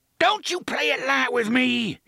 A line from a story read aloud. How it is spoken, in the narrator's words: he shrieked